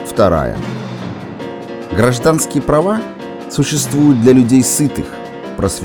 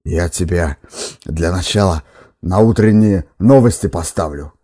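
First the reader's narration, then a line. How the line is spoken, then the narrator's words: Hoarse wheeze. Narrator (Russian): хрипел редактор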